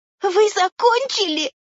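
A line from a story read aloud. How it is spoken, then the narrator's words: Trembling timid question. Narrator (Russian): Дрожащим голосом, не смея поднять головы, спросила Майя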